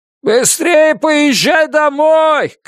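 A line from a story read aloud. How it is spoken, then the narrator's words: Shouting. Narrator (Russian): крикнул Муки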